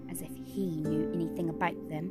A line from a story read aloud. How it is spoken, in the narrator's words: muttered Edmund